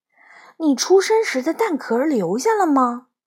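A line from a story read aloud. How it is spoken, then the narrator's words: Sighing. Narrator (Chinese): 行时叹了口气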